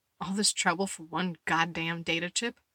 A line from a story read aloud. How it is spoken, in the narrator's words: Letty muttered